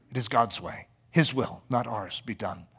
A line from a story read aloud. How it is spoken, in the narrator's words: he whispered in Ida's ear